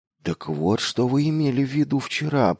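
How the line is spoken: Muttered. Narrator (Russian): пробормотал он

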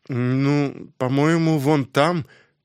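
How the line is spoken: Hesitant, uncertain. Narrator (Russian): после недолгого раздумья неуверенно ответила Лора

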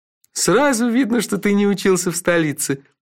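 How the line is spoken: Laughing. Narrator (Russian): рассмеялся Номинорих

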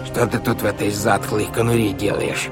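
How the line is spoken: Creaky voice. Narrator (Russian): произнес он скрипучим голосом

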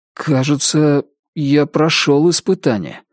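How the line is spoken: Uncertain speech. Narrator (Russian): неуверенно проговорил Ричард Мэхью

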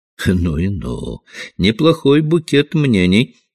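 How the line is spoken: Laughing. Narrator (Russian): смеясь, подытожил инспектор

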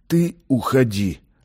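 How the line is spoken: Doomed, forced out. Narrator (Russian): обреченно выдавил Ахмед

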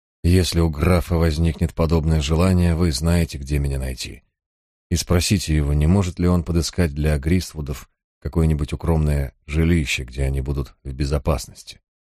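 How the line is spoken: After a deep sigh. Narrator (Russian): Я глубоко вздохнул и сказал

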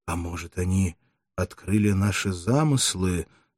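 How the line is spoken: Frightened young man whispering. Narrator (Russian): сказал шепотом, весь побледнев, молодой гладиатор

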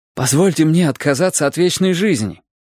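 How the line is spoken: Exclamation. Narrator (Russian): воскликнул

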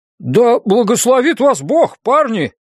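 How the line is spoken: Calling out after. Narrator (Russian): крикнул вслед Энди

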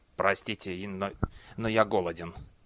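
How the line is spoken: Mumbling. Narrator (Russian): Клусар пробормотал

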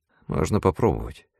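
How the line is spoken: Barely audible reply. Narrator (Russian): чуть слышно ответил Диксон

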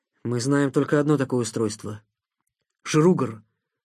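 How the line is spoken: Plain. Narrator (Russian): сказал Никита

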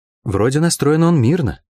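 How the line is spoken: Uncertain. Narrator (Russian): неуверенно сказала она

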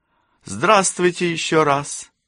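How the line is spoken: Cheerful exclamation. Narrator (Russian): весело вскликнула Кэсси

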